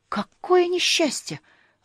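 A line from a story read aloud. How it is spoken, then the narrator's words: Exclamation. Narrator (Russian): воскликнул Шнырек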